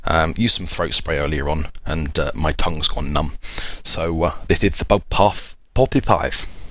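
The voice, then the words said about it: Hoarse, strained, fading voice. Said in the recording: “As you can probably hear from my voice, I am losing it. I've got a sore throat.”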